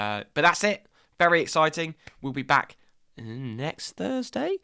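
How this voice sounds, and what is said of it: Usual voice. Nothing is said of it.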